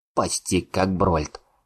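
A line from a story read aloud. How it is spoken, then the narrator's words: Snorting chuckle. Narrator (Russian): хмыкнул Атхур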